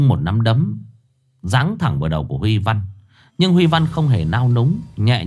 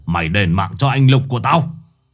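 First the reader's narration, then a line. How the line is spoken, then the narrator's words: Roar. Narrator (Vietnamese): ông Cương gầm lên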